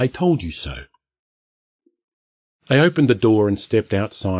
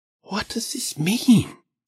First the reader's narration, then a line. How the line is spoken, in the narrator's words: Sonia whispered